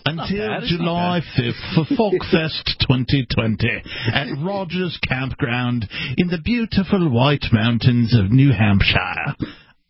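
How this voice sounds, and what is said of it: Bad put-on British accent. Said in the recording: “bad British accent ... Got better at the end ... You're slipping over into Irish once in a while.”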